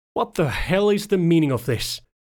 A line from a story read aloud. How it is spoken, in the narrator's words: He howled